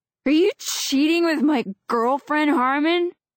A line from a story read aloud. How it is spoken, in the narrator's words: Rob roars